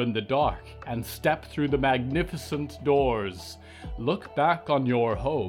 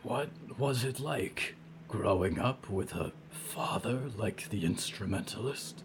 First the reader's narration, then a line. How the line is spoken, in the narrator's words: Diggory asked quietly